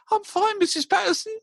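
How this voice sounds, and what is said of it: Very squeaky high voice. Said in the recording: “With that very squeaky high voice.”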